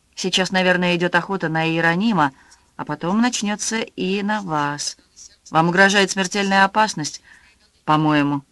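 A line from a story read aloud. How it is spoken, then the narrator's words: Calm voice. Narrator (Russian): спокойным голосом сказал Фасонов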